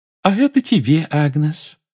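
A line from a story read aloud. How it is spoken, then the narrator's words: Cheerful. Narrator (Russian): весело сказала целительница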